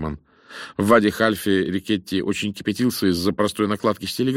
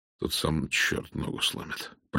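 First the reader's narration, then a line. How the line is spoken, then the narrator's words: Muttering under breath. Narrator (Russian): пробормотал он под нос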